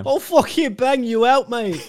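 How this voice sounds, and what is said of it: Poor put-on British accent. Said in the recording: “I've just done a very poor British accent”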